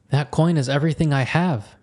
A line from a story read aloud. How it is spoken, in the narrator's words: Matrim whined